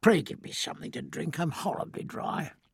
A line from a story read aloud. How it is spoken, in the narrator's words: a bubbling exultation and a croak of laughter, and said